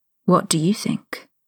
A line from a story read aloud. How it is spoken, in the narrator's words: Harry asked huskily